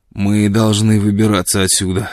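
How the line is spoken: Hoarse, hungover voice. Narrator (Russian): сказал он хриплым, точно с перепоя голосом

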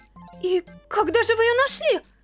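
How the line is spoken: Exclaimed. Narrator (Russian): Воскликнула Стеф

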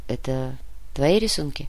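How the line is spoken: Quiet question. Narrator (Russian): Негромко спросил Матвей

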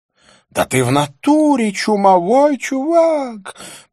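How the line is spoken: Panicked parrot-like shriek. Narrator (Russian): провизжала Розанна голосом паникующего попугая

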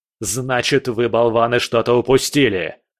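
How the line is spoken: Barking shout. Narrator (Russian): рявкнул Келлер

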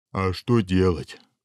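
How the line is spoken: Sighing ogre. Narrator (Russian): вздохнул людоед

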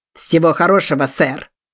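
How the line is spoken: Shout. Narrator (Russian): крикнул

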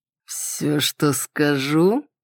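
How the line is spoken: Slow drawl. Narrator (Russian): протянул

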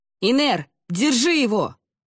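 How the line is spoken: Shout. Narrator (Russian): крикнул Ламинар

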